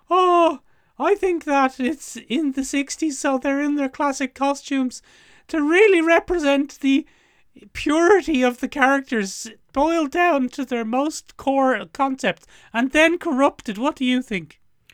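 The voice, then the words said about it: Imitates another person's voice, mockingly. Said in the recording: “doing an impression of you ... My voice is deeper than yours in an everyday sense ... weird and mean representation”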